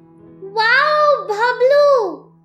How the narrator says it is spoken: some pretty girls giggled

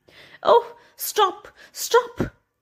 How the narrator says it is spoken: cried the mother

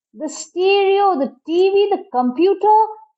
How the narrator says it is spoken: he yelled

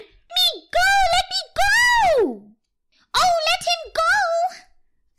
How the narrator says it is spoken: squealed all the company

